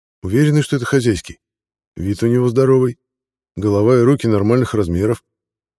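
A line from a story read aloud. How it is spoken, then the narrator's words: Plain. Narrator (Russian): ответил комитану человек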